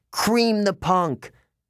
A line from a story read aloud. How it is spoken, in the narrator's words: Clarice screamed